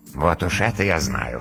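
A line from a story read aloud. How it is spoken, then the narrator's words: Dragon's amused snort. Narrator (Russian): хмыкнул дракон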